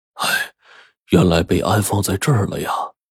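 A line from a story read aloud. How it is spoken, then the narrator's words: Sighing. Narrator (Chinese): 狗子叔好像是遇到故人一样，叹息说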